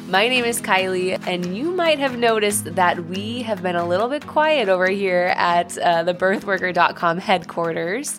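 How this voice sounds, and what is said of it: Voice sounds sick. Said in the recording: “my whole family has been sick with COVID for the last over a week now ... barely hanging on. You might hear it in my voice”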